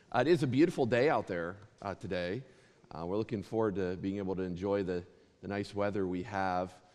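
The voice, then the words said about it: Slightly raspy voice. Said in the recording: “my voice is a little raspy ... it goes right into my throat, and it sticks to my vocal cords”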